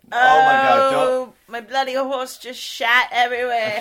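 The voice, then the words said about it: Exaggerated put-on accent. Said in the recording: “crazy accent neighbor”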